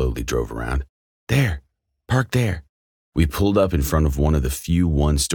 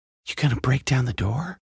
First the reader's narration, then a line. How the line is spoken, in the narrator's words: He whispered as we approached